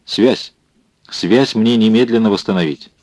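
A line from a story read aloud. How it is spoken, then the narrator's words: Sharp, stern, tense. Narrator (Russian): командарм, вновь суровый и напряженный, резко сказал ему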